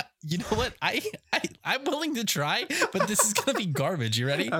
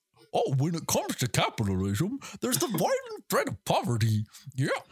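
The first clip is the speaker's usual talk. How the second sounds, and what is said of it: Goofy impression. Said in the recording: “I do an okay Goofy impression ... in the voice of Goofy ... That was quite good.”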